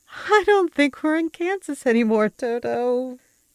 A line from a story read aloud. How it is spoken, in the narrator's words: giggled hysterically, completely unable to function coherently, as my mind teetered on the edge of the abyss